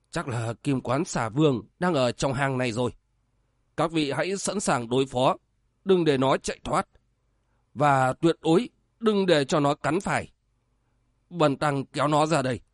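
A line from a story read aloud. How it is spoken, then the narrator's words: Whispering. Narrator (Vietnamese): Tiếu Diện Phật thì thầm nói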